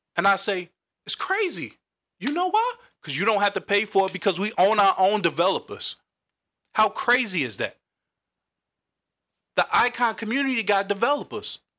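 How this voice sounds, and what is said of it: Loud, passionate yelling. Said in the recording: “I'm sorry if I'm yelling. I'm just real passionate about this.”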